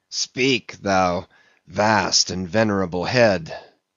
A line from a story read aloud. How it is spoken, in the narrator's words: muttered